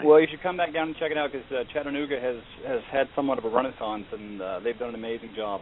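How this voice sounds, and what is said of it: Fast-talking New York accent. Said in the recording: “fast-talking New Yorker ... you got to slow it down.”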